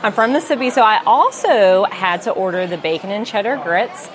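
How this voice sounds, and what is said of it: Southern US accent. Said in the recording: “I am from the South, as hopefully you guys can tell in my accent.”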